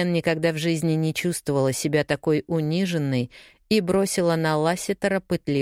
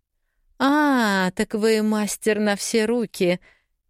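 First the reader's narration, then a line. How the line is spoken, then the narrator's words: Merry laughter. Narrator (Russian): Анита весело рассмеялась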